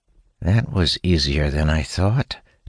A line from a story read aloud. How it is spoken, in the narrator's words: Talon says under his breath